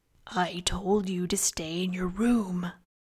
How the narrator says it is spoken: Fingal whispered to her

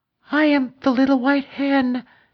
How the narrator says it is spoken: she replied in a low, frightened little voice

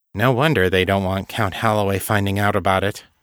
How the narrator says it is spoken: Kate said, dryly

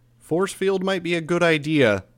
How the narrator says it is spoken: I called out

